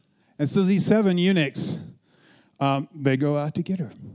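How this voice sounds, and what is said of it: Usual voice. Nothing is said of it.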